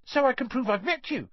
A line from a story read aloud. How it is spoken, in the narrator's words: said Colin Creevy eagerly